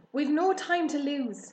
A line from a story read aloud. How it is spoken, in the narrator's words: shouted Mr